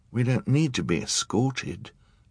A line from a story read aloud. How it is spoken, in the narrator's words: Charles said timidly